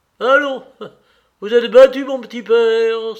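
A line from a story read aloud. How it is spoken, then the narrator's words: Cheerful exclamation. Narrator (French): s'écria gaiement Katavassov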